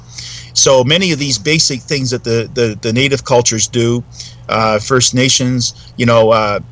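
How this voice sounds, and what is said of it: Canadian accent. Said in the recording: “your accent. Are you from Canada or the northern Midwest? ... So Canadian accents are easy.”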